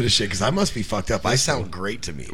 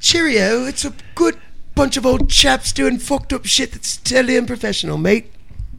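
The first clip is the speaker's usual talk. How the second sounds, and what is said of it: Inconsistent mock English accent. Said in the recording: “What the fuck kind of accent was that there, lad? ... You went from English to Russian to I don't know what the fuck ... He went between like 20 different nationalities ... you started like in English, and then you went Irish, Scottish, fucking Austrian, something”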